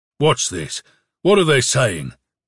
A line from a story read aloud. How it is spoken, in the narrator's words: said somebody in a bass voice among the ranks of cadets